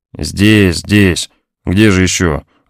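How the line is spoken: Weary reply. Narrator (Russian): ответила наконец усталым голосом

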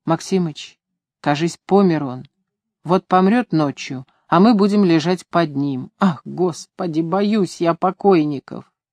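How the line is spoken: Whispered. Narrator (Russian): шептал

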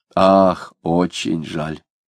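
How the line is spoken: Sigh. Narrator (Russian): вздохнул Захарий

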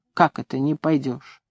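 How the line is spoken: Quiet, surprised question. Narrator (Russian): Ларионыч спросил тихо и удивленно

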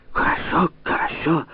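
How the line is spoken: Confused whisper. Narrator (Russian): растерянно прошептал унтер-офицер

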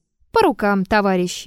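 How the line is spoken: Cheerful. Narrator (Russian): весело сказала она

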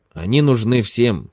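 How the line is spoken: Angry. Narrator (Russian): сердито произнес Махбуб

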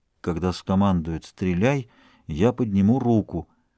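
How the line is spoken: Muttering. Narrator (Russian): Дюруа продолжал бормотать

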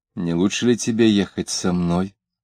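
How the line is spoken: Soft pleading. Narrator (Russian): Он сказал тихонько, упрашивая

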